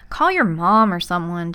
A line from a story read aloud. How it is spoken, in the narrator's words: Jack had said